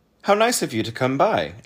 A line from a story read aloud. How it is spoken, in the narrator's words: exclaimed the man